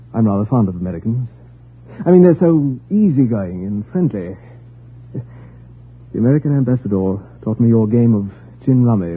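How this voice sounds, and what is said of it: British accent. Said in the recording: “Are you British? ... Your accent”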